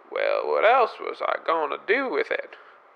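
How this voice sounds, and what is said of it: Inconsistent, shifting put-on accent. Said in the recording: “your accent seems to be changing every 5 seconds here”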